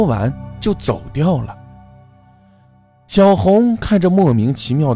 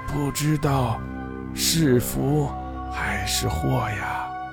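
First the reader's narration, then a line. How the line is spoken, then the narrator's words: Sighing woman. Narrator (Chinese): 那个妇人叹了一口气说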